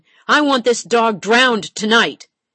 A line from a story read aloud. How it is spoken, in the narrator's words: McGettigan's eyes, black with rage, shouted